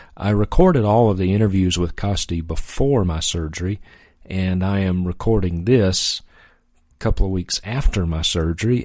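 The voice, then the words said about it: Hoarse voice. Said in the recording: “my voice is a little bit hoarse. ... It's not your speakers, it is my voice. ... even though my voice is much better, it's still a little bit hoarse”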